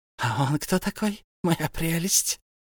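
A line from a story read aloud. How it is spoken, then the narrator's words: Hissing. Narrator (Russian): прошипел Голлум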